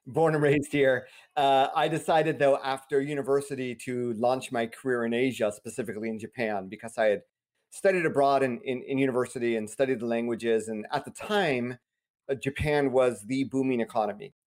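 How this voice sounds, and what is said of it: American accent. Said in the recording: “as you hear from my accent, I am American.”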